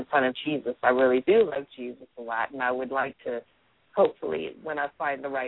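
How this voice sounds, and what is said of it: Usual voice. Nothing is said of it.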